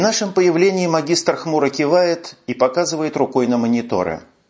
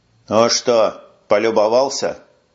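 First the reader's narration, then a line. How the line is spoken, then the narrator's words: Gloomy question. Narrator (Russian): мрачно спрашивает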